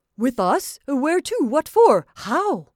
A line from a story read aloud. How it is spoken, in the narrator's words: He stammered